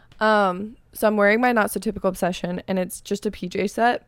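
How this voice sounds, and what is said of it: Raspy, hoarse voice. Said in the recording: “my voice is definitely raspy ... every time this happens, I lose my voice ... sorry for the raspiness”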